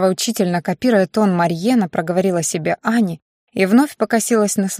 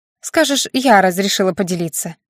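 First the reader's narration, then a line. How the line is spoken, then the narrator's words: With a snort. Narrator (Russian): хмыкнув, добавила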